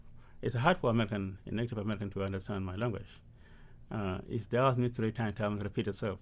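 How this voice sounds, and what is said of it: Non-native English accent. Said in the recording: “Do you think it's hard because of the way you speak English? ... Do you think because of your accent that makes it harder for you to meet people here? ... For me, it's accent. ... Every accent that we have is too much for you guys to understand.”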